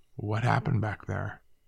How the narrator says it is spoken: Calmly, he asked

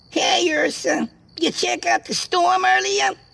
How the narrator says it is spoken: the squeaky voice of Jimmy shouted

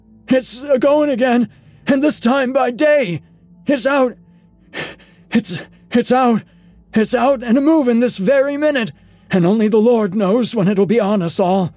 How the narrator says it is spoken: The speaker panted into silence

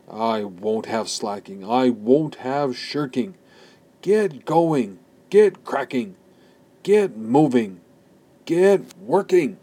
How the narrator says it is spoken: He shouted and bellowed

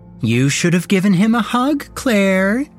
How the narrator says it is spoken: she said mockingly, laughing and jumping around in joy

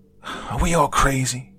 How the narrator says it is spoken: He cried

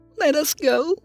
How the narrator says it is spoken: Carla squeaked in a tiny voice

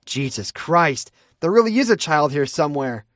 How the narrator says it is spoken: Alice snapped

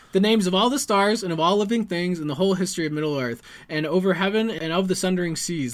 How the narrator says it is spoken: laughed Pippin

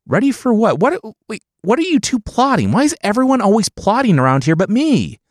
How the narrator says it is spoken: the dad whined

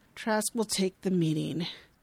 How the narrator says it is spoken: He bitterly says

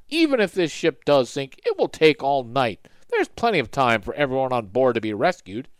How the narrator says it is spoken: one said with a laugh

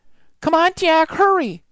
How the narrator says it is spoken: cried Annie

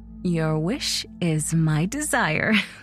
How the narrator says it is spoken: laughed Ida

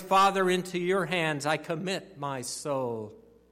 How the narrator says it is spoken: Jesus called out in a loud voice

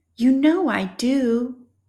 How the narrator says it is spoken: exclaimed Cooper

